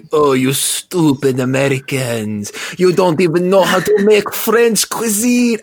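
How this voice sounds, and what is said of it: Bad put-on French accent. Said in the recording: “some Frenchman going ... I know my accent is awful.”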